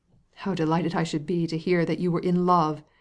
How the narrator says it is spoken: exclaimed Levin

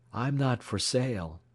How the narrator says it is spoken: he replied quietly

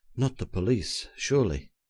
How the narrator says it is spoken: I whispered to him in some anxiety

